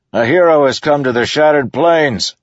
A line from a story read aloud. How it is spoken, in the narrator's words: the soldier yelled back